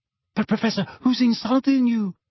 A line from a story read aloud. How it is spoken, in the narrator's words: asked Parvati timidly